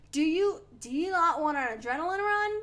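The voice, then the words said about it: Put-on Australian accent. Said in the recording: “He said it in an Australian accent. ... Aussie accent.”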